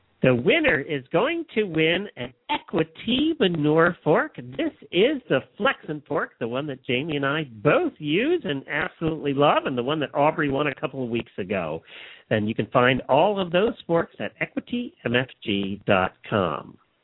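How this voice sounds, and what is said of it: Polished radio-commercial announcer voice. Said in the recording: “That's your commercial voice. You just read that last ad and that whole thing in your commercial voice.”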